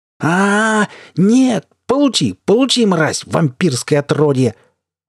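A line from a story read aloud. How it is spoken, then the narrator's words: Screaming at top of lungs. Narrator (Russian): Вопил во всю глотку Марк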